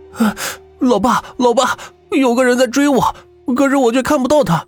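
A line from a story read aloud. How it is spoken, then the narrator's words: Breathless. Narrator (Chinese): 我气喘吁吁的说道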